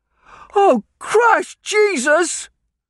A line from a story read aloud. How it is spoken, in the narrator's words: one of the students cried out